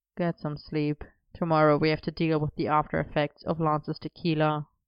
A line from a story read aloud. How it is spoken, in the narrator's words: murmuring